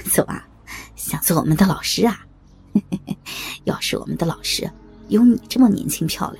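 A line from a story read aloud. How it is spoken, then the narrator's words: Sniggering. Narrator (Chinese): 黄毛在旁边嘿嘿一笑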